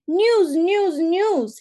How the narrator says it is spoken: whines

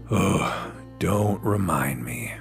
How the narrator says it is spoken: Michael groaned

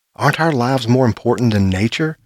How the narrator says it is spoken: cried out

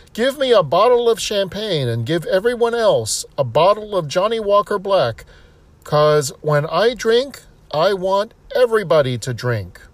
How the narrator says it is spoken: Jim again yells

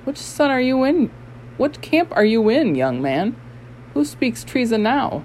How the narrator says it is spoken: exclaimed

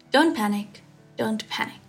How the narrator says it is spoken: Seeing his face change color so drastically, Shirlian quickly soothed

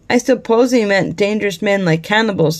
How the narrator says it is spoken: said Henry

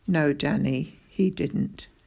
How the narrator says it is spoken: answered softly

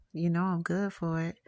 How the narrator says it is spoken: she says in a seductive voice

